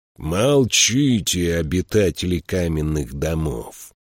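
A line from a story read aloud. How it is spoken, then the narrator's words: Growling. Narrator (Russian): прорычал он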